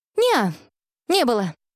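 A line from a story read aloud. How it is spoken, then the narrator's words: Calm girl explaining. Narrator (Russian): спокойно пояснила девочка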